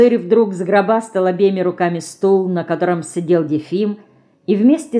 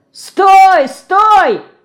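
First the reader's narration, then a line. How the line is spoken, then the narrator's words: Shout. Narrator (Russian): закричал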